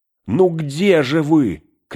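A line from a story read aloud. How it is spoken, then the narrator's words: Frightened, angry shout. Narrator (Russian): крикнул он снова, испуганно и сердито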